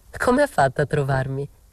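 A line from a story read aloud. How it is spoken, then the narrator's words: Laughing. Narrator (Italian): dissi ridendo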